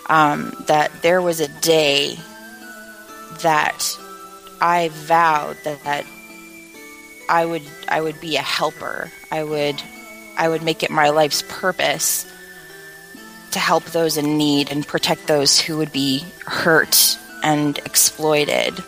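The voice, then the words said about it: Low, quiet voice. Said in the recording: “in a very in a low voice”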